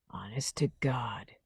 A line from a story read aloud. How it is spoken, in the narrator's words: whispered